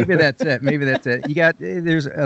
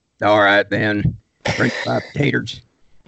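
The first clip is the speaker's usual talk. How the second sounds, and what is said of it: Billy Bob Thornton Sling Blade drawl. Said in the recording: “I kind of took Billy Bob Thornton from the movie Sling Blade... I dialed it back a little bit... a little bit of a drawl”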